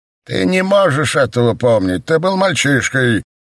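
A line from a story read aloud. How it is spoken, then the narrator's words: Teacher's loud reply. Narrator (Russian): громко ответил учитель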